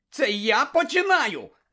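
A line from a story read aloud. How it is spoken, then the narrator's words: Shout. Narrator (Ukrainian): закричав Шеймус, котрий навпаки весь поблід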